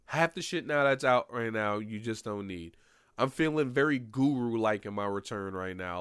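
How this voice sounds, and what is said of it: Stuffy, nasal voice. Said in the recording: “My nose is a little stuffy, so my voice is a little nasally”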